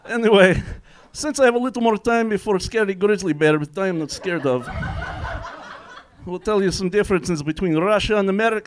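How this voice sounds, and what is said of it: Fake Russian accent. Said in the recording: “They don't like guy with Russian accent. ... doing a fake Russian accent”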